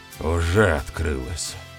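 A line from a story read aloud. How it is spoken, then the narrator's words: Gruff mutter. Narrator (Russian): буркнул он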